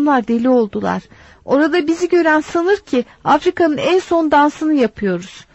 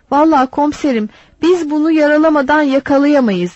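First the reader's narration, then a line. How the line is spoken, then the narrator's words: Plain. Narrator (Turkish): dedi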